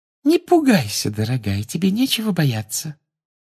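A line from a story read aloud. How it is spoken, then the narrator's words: Gentle, soothing. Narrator (Russian): ласково сказала профессор Амбридж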